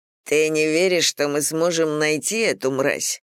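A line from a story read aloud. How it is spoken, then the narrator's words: Through gritted teeth. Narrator (Russian): процедил Брэд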